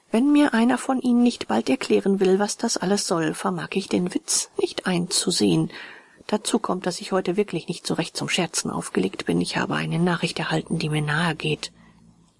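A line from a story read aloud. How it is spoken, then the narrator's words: Calm. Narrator (German): sagte ruhig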